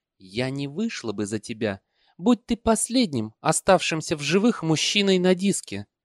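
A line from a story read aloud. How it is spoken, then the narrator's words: Cooing, sweetly venomous. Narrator (Russian): голосом ласковой змеи проворковала она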